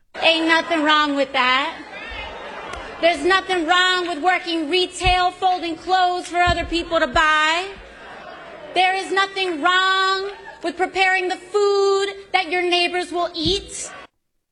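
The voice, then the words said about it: Affected Southern American accent. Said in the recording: “the Southern accent thing ... affecting a Southern accent”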